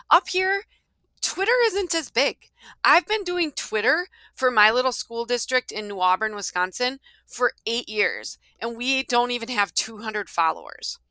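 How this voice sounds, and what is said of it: Strong Upper Midwest accent. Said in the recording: “I live in Wisconsin and in Minnesota. I'm a little bit in both places, but I have that strong accent.”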